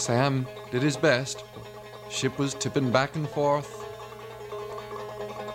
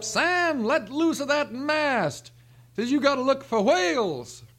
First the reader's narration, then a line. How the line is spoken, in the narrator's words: The captain hollers up